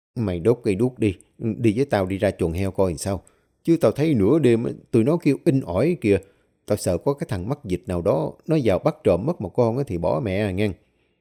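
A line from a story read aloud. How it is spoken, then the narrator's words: Frail old man, quiet. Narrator (Vietnamese): Ông đưa đôi tay gầy guộc run run kéo vai thằng Huy lại, nói nhỏ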